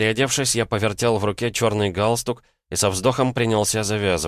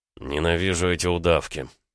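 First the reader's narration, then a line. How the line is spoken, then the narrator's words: Muttering. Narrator (Russian): бормотал он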